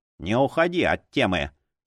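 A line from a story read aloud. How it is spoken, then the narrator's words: Grumbling. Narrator (Russian): проворчал он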